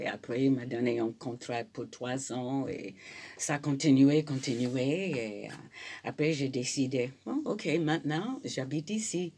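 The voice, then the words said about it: Noticeable foreign accent speaking French. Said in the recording (French): “malgré mon accent”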